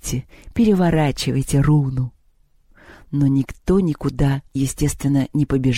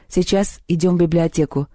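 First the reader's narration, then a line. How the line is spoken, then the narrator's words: Curt, clipped. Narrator (Russian): отрывисто сказал Антон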